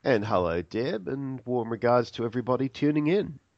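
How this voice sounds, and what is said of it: Australian accent. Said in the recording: “part of the fun is your accent ... now we have an Aussie on the program”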